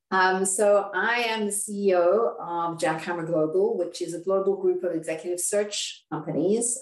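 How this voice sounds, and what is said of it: South African accent. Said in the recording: “I'm from South Africa, from Cape Town. You may be able to hear my accent.”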